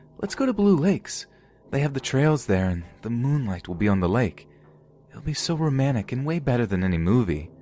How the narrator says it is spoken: She said in the bubbly voice

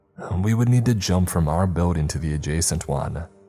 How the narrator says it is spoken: Christian said

